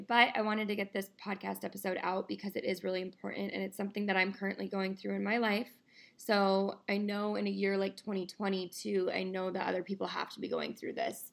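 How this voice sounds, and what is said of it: Slightly raspy, tired voice. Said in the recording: “my voice is a little bit raspier today ... my voice is just a little bit tired today”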